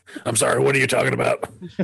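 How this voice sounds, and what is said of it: Imitates another person's voice. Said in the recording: “That's a good impression. That's a very good impression of him.”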